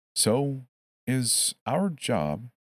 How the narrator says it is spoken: I said slowly

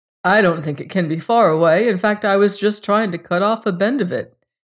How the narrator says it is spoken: he said with a little laugh

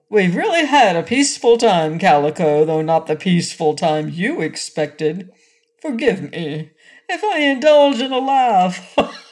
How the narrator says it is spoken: Said Rinky-Tink with a chuckle

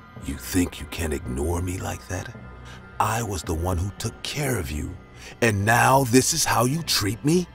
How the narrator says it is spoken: She said, in a horrifying voice

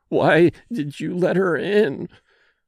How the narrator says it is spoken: she moaned

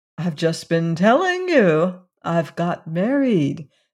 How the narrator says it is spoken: said Valancy calmly and patiently

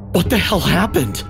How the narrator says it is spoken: I gasped, my heart pounding

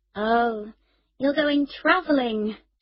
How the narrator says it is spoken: she said wearily

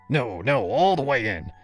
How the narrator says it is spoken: he insisted, his tone sharpening

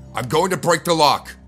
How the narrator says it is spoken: I shouted

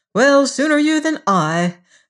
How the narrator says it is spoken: she replied cheerfully

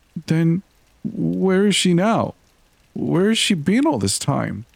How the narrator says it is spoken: My voice was quivering

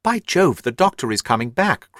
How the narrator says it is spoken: cried Holmes

